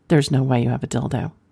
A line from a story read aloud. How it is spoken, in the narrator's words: I quickly responded